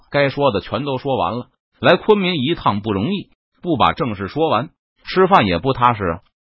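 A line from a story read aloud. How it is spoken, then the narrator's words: Smiling. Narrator (Chinese): 邓明微笑道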